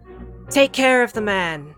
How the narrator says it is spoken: Kara shouts

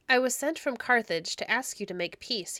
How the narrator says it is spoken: he said,

